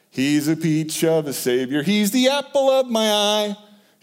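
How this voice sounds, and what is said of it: Imitates another person's singing voice. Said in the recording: “my Phil DeBoof impersonation”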